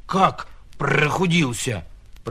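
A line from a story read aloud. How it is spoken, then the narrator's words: Donkey grumbling. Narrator (Russian): проворчал ослик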